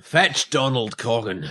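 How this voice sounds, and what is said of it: Reasonable put-on Scottish accent. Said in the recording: “That was a reasonable Scottish accent.”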